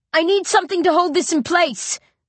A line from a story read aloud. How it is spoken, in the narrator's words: I shout